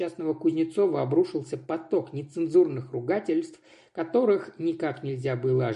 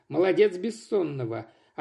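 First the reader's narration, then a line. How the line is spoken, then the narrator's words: Said after laughing. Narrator (Russian): отсмеявшись, наконец сказал Казаков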